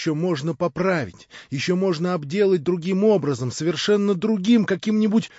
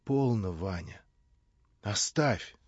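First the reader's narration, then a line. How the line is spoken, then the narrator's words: Interrupting, smiling through tears. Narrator (Russian): прервала она, улыбнувшись сквозь слезы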